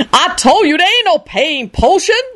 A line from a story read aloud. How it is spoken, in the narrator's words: Lucretia shrieked back furiously